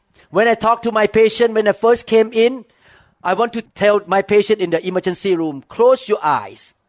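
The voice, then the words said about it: Strong non-native English accent. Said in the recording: “speaking broken English accent. My accent is like this... My accent was so bad”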